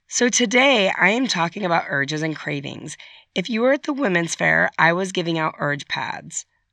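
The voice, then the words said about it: Slightly strained, sick-sounding voice. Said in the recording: “I've been a little under the weather. My voice is a little strained. ... my voice sounds a little sad.”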